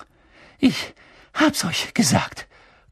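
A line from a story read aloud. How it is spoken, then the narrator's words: Panting. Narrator (German): keuchte Hermine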